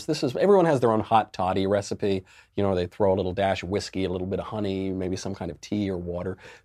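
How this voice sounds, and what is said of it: Sick, under-the-weather voice. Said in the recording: “You can probably hear it in my voice. I'm a little bit under the weather today”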